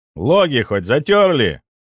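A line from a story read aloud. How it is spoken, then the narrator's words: Stern question. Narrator (Russian): строго спросил я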